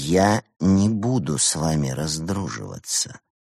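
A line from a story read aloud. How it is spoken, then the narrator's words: Quiet but firm. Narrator (Russian): Тихо, но твердо сказал Евгений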